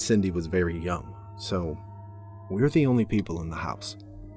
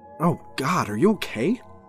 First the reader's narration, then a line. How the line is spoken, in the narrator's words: I exclaimed